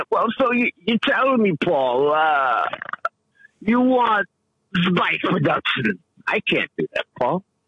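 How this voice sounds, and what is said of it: Christopher Walken impression, Bronx sound. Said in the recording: “Christopher Walken ... Just no accent. That whole random Bronx sound.”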